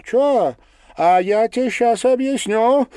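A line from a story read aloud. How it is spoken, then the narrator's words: Shouting angrily, female. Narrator (Russian): со злостью выкрикнула она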